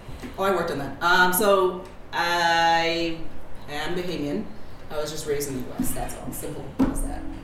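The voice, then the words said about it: Bahamian accent. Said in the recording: “your unique Bahamian accent”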